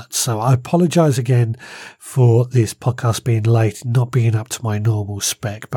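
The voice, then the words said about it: Strained, struggling voice. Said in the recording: “as you can probably hear, my voice is starting to struggle now”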